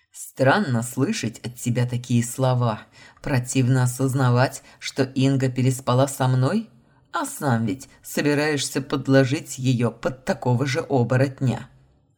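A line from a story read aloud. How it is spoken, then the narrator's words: Growling. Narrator (Russian): рыкнул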